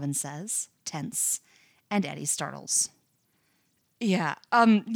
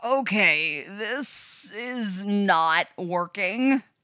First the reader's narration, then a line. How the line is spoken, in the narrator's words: Robin groans